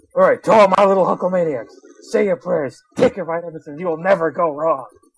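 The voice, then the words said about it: Imitates a wrestler's voice. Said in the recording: “a Hulk Hogan voice ... Does anyone here know how to do a Hulk Hogan voice? ... I could try.”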